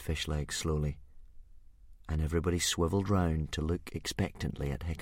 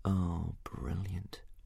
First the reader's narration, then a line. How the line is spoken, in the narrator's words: muttered Hiccup under his breath